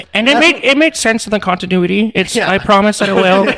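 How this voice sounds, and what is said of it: Imitates another person's voice. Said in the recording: “That's a good impression. That's a pretty good impression.”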